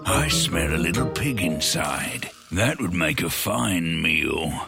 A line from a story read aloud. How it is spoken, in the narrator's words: He growled